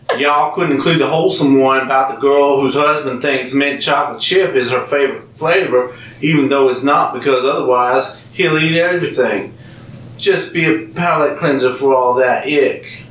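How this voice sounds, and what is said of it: Put-on Southern American accent. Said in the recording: “Oh, I get to do my southern accent because it says y'all.”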